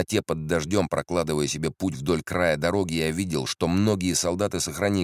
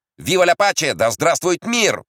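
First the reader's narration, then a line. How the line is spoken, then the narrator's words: Soldier's shout. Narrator (Russian): выкрикнул какой-то солдат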